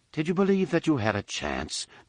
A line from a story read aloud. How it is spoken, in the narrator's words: Dagara calmly asked Miko